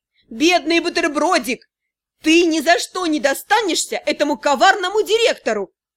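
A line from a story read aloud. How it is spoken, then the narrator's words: Laughing, yelling villain. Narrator (Russian): Коварный директор расхохотался и завопил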